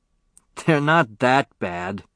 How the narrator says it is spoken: laughed Joe Cassini

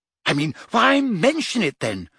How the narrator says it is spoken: She said impatiently

